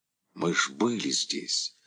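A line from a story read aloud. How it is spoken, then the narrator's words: Frightened whisper from behind. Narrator (Russian): испуганно шептал сзади Бутенин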